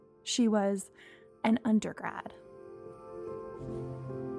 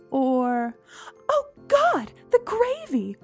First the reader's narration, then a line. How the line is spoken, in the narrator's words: Mom shrieked